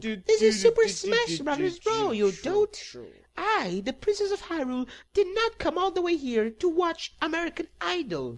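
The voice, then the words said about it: Boyish voice playing a princess. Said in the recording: “why do you sound like a boy?”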